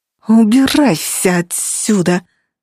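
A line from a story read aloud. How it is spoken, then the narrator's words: Hissing. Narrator (Russian): зашипела Эмма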